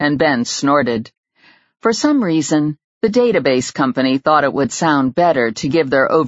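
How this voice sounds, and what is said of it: Usual voice. Nothing is said of it.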